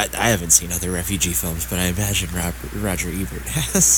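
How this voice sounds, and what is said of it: Usual voice. Nothing is said of it.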